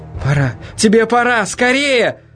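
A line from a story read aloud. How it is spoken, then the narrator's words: Almost shouting. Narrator (Russian): Она почти кричала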